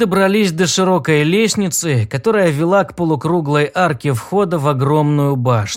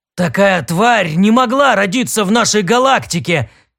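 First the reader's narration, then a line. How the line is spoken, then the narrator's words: Loud exclamation. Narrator (Russian): громко воскликнул Дрил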